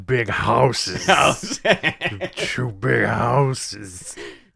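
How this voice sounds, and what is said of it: Very slow JR impression. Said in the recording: “my JR impression ... It's very slow ... You just slow it down ... Half speed.”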